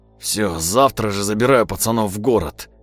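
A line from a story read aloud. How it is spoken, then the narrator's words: Dejected bleat. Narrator (Russian): упавшим голосом проблеял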